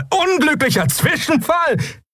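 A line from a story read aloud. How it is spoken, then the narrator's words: Bearded man laughing. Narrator (German): Der bärtige Mensch lachte auf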